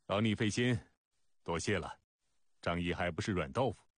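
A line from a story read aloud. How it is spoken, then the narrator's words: Calm, light laugh. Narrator (Chinese): 张仪淡淡笑道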